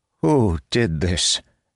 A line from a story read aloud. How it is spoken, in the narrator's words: Ilrin asked, his voice shaking